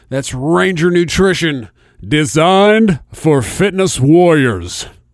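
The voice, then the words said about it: Announcer-style radio voice. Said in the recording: “It's my radio voice.”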